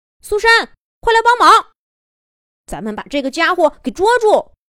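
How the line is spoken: Shouting while running. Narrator (Chinese): 一边跑还一边喊

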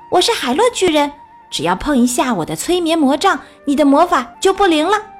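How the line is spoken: Shouting. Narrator (Chinese): 小熊妹妹大喊

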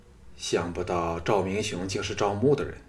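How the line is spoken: Sighing. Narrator (Chinese): 藤毅叹道

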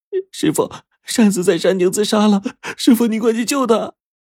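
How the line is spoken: Crying. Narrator (Chinese): 小梅哭着说

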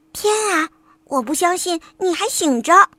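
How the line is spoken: Whisper. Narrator (Chinese): 黛拉小声地说

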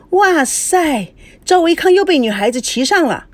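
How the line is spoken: Loud shout. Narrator (Chinese): 他大声地叫

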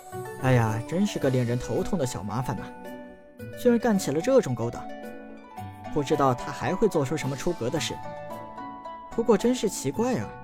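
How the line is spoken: Sighing. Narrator (Chinese): 陈南叹道

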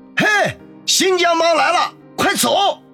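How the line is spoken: Alarmed shouting. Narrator (Chinese): 大叫道

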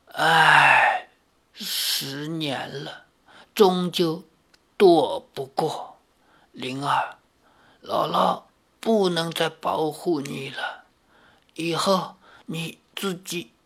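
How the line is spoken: Dry hoarse old woman. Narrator (Chinese): 姥姥声音干哑地说

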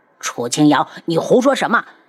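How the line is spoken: Shocked, angry, sharp. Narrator (Chinese): 一脸的惊怒，厉声道

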